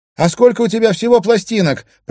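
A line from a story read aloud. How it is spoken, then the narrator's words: Shouted reply. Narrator (Russian): прокричала в ответ Кая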